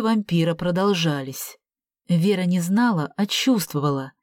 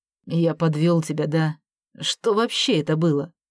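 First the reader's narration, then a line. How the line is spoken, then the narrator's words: Muttered. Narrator (Russian): Артем пробормотал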